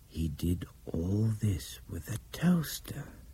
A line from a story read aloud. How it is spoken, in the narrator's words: Nick muttered